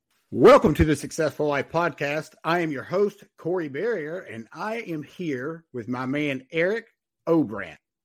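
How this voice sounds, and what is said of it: Southern accent with a twang. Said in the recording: “It's a twang. You can't get it with the twang ... We got a little southern accent down here.”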